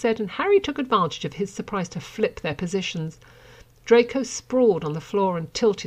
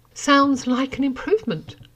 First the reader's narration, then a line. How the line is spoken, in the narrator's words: Harry gasped, as Draco's hips ground tortuously over his own